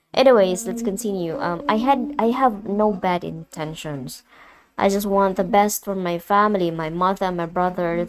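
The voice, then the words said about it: Mixed American and British accent. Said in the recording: “sorry for the accent ... Having the mixed accent, American and then British”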